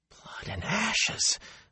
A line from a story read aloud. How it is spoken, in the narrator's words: Matt said faintly